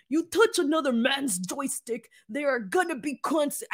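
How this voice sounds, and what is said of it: Imitates another person's voice. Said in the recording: “Let me try to see if I can get Wade Barrett's accent... I can't do it.”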